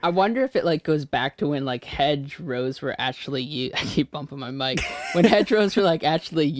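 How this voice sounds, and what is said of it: Usual voice. Nothing is said of it.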